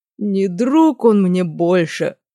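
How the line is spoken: Dramatic exclamation, then groan. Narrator (Russian): патетично воскликнул огневик и тут же застонал

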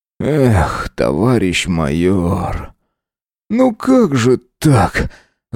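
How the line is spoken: Bitter groan. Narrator (Russian): с горечью простонал опер

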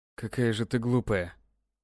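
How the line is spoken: Strained, without malice. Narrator (Russian): беззлобно выдавил мужчина

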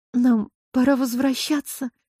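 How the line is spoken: Barely forced out. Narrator (Russian): еле выдавила из себя она

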